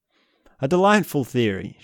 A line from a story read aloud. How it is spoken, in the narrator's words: she exclaimed